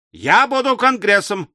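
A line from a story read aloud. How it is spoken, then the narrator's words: Yelling. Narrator (Russian): вопил Мишель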